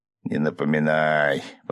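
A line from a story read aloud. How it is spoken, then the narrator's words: Groaned. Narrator (Russian): простонал другой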